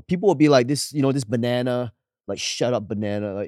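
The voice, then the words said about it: Singaporean English accent. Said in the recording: “you just speak English like it's not your first language ... that's just how we speak English in Singapore”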